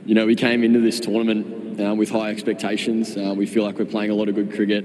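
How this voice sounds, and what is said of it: Dutch-accented English. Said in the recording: “sounding very Dutch”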